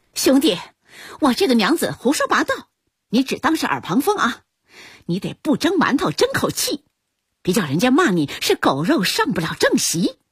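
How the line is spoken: Quarrelsome shouting. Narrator (Chinese): 跳嫂吵架似的喊嚷道

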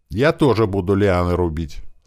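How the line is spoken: Calm. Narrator (Russian): спокойно сказал полукет

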